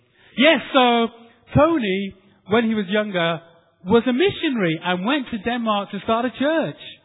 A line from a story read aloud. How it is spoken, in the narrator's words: Hisham pipes up nice and loudly